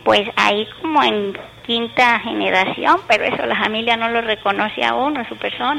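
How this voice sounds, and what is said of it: Rural peasant Spanish accent. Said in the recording (Spanish): “tiene usted como un acento campesino”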